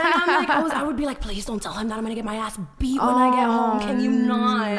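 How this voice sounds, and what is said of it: Usual voice. Nothing is said of it.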